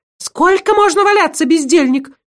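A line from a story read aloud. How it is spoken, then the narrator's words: Menacing shrill bark. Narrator (Russian): Грозно рявкнула она чужим визгливым голосом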